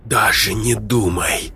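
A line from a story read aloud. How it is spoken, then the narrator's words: Whisper. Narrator (Russian): прошептала Марго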